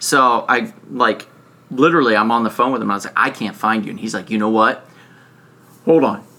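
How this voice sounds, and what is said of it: Usual voice. Nothing is said of it.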